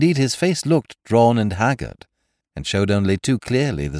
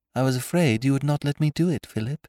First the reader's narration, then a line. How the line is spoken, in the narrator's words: said Miss Farquhar meekly